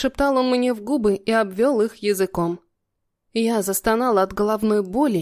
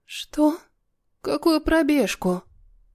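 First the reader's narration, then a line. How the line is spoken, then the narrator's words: Sleepy husky voice. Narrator (Russian): сонно просипела я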